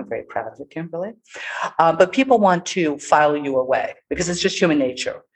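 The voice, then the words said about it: New York City accent. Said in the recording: “I have a New York City accent.”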